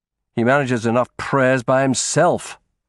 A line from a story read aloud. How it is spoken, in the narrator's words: I snapped